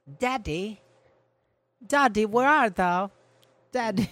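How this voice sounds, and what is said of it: Put-on old-fashioned British London accent. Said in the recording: “Speak English. Let's hear English, like London. ... you did London 1680. ... That's my British accent ... It was actually good.”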